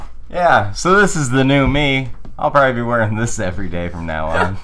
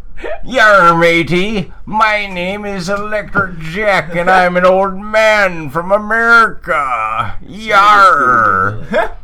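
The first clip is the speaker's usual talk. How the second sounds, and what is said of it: Badly done put-on pirate accent. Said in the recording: “Really bad accent work on my part.”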